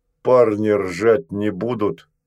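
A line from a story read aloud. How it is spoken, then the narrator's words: Deep-voiced question. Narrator (Russian): басом спросила Штопочка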